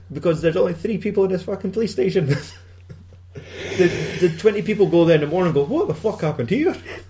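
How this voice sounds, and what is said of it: Scottish accent. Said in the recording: “Scottish accent. Well, I'm Scottish anyway.”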